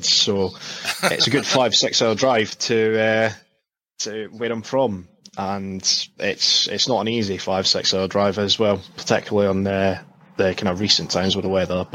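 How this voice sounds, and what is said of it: Scottish accent. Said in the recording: “in case you couldn't tell from the accent, I'm actually from Scotland”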